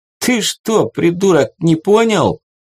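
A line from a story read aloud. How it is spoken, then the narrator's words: Laughing loudly. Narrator (Russian): Парниша расхохотался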